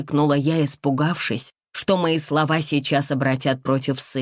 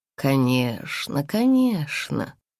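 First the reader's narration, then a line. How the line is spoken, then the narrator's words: Almost tender agreement. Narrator (Russian): почти ласково поддакнул голос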